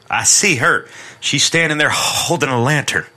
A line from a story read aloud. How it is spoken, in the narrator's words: He cried excitedly